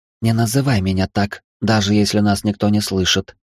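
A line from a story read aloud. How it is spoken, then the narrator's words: Whispered. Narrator (Russian): прошептала Елена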